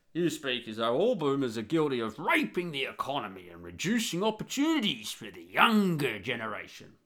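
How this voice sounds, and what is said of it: Put-on boomer character voice. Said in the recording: “got to do my boomer voice”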